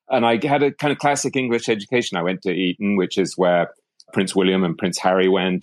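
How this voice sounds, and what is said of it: English accent, slightly faded. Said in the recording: “I grew up in England, as you might be able to tell from the accent ... it started to fade”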